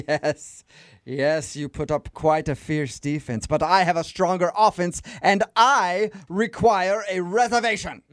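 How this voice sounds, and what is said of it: Weird, made-up posh noble accent. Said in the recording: “your accent is so weird ... my accent is from nobility ... your accent just sounds made up at this point ... You sound like an idiot”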